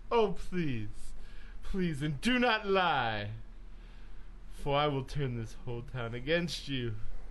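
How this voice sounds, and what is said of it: Put-on theatrical accent. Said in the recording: “And my accent changes it.”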